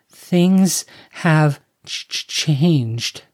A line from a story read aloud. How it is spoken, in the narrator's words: his cousin stammered